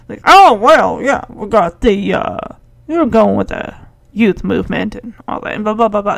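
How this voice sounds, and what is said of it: Imitates another person's voice. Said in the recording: “Caddyshack Bill Murray impersonation”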